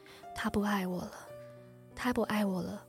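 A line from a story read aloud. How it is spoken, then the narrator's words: Woman murmuring through static. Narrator (Chinese): 在断断续续的杂声中，电话中的女人一直喃喃的说着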